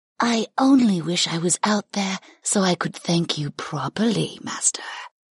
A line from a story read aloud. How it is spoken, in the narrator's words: the skeletal Arkan purred